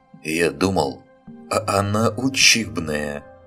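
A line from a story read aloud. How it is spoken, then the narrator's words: Chuckling. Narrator (Russian): хохотнул Семён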